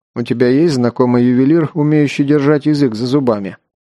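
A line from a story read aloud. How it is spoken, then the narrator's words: Plain. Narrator (Russian): спросил его Герман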